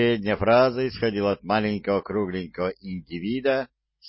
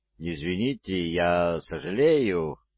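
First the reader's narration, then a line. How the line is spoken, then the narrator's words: Mumbled. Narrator (Russian): промямлил я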